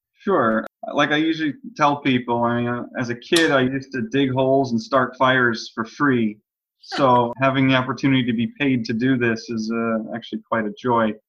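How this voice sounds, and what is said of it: American accent. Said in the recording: “your accent tells us you're a fellow American”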